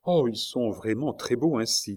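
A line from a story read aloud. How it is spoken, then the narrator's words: Plain. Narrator (French): dit Marguerite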